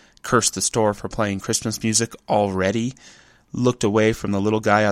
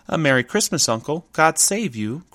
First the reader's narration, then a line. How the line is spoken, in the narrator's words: cried a cheerful voice